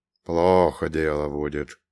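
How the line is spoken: Man's mutter. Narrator (Russian): буркнул мужчина

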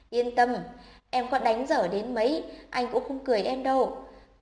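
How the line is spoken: Hearty loud laughter. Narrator (Vietnamese): cười to sảng khoái

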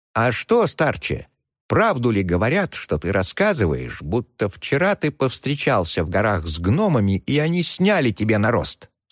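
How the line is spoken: Plain. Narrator (Russian): спросил он

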